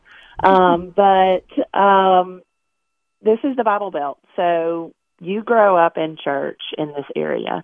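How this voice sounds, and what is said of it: Regional American accent. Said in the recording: “I live in Alabama. I've grown up here. I'm sure most of you guys listening can tell by my accent”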